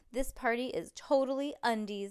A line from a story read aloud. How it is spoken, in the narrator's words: yelled Stink